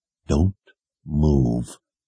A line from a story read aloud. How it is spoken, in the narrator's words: Kaylin said through gritted teeth